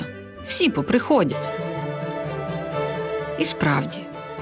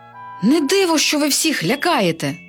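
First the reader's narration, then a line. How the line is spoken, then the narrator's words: Princess exclaiming. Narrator (Ukrainian): вигукнула принцеса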